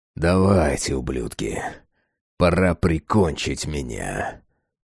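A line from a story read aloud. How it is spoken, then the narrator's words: Growled. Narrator (Russian): Прорычал я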